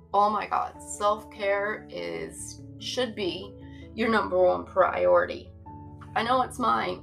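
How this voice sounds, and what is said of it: Newfoundland accent. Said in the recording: “because I am newfie. So, you know, I do have an accent ... I'm a fucking newfie”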